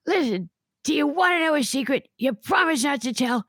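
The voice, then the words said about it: Imitates another person's voice. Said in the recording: “Joan Rivers”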